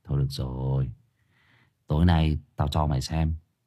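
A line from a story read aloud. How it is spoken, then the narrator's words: Sighing. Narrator (Vietnamese): Năm Lát thở dài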